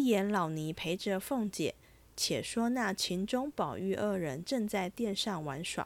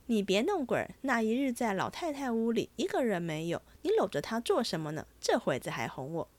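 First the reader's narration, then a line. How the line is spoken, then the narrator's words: Laughing. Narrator (Chinese): 宝玉笑道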